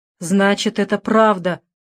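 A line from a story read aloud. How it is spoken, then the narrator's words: Father groaning. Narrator (Russian): простонал отец Дэвида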